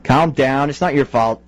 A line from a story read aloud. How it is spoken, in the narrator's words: said Greg